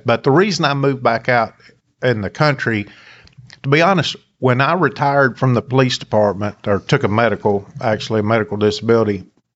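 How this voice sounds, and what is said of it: Appalachian accent. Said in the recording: “my accent is Appalachian”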